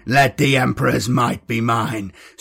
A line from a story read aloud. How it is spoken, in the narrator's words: Streck spat bloody spittle